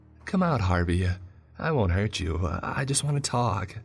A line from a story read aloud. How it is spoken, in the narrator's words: said